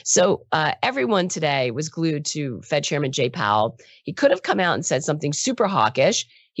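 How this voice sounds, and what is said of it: Rough, raspy voice from a cold. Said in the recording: “My voice is crap ... struggling with a cold ... I now sound like Marge Simpson's sister ... I sound worse than I feel”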